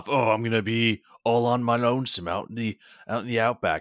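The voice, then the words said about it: Poorly done put-on accent. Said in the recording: “I have a terrible accent”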